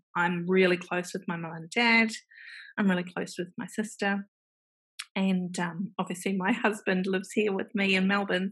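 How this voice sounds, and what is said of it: New Zealand accent. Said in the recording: “there is a Kiwi accent.”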